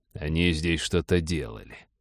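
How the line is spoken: Muttered. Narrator (Russian): пробормотал Череп

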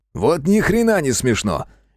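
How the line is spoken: Barked. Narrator (Russian): рявкнул на малыша Геныч

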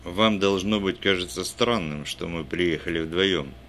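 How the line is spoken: Plain. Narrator (Russian): сказал Доусон

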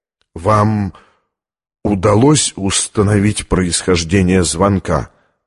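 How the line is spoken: Stammering question. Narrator (Russian): заикаясь, спросил Оливетти

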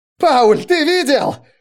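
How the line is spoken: Shouting. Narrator (Russian): кричал Райснер

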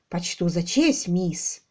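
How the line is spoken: Solemn reply, sergeant. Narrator (Russian): ответил сержант торжественно

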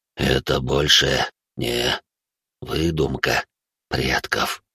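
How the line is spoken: Tearful whisper. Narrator (Russian): прошептал он со слезами на глазах

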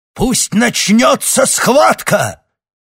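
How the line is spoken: Barking. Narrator (Russian): рявкнул он

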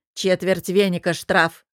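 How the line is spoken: Dry. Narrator (Russian): сухо сказала Кримхильда

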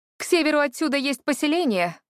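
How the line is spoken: Loud shout. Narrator (Russian): громко крикнула им

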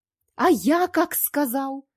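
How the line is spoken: Sudden yell. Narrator (Russian): Вдруг завопил режиссер

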